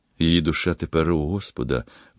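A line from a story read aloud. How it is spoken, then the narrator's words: Quiet, deeply moving. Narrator (Ukrainian): мовив тихо, але так зворушливо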